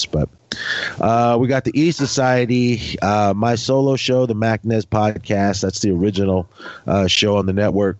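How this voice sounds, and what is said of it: Stuffy, slightly hoarse voice. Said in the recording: “Sorry I sound bad. ... I'm kind of stuffy and my throat's a little hoarse”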